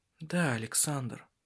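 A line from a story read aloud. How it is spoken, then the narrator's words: Soft reply. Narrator (Russian): мягко ответила она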